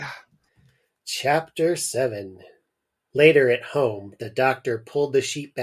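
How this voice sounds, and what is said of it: Usual voice. Nothing is said of it.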